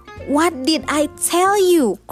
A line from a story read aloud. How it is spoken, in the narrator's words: cried the father and his wife, too angry at losing